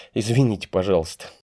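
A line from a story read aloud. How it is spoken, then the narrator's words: Awkward apologetic. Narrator (Russian): Валя опять неловко засмеялась, но спохватилась и сказала Глебу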